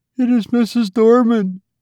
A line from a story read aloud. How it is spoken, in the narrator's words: she sobbed